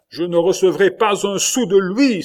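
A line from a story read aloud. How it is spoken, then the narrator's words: Sobbing exclamation. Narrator (French): s'écria Matteo, tout sanglotant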